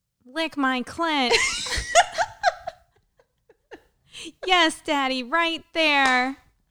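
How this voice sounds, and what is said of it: Robotic mock-sexy voice. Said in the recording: “impersonating a robot ... do your best robot sex voice ... My arm was like going like a robot”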